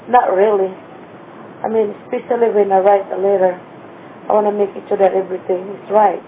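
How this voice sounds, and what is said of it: Non-native English accent. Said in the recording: “an accent plays a really big part with you”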